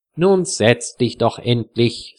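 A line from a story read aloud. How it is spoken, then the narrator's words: Plain. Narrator (German): sagt Wilhelm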